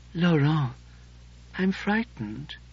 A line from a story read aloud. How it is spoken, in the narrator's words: he whispered